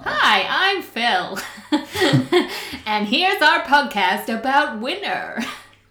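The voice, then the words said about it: American shopping-channel advert voice. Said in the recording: “American TV presenter ... American advert. Do you know like you see on the shopping channels?”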